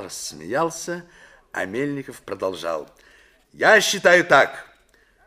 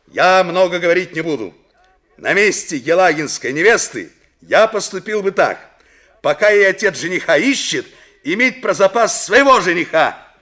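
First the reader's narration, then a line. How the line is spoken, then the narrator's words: Loud over commotion. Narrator (Russian): Мельников посреди общего неожиданно поднявшегося шума громко сказал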